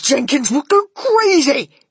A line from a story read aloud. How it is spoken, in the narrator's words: yelled Mr